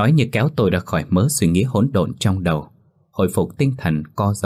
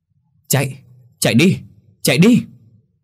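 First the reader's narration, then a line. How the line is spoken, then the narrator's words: Screaming. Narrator (Vietnamese): Anh Phái gào lên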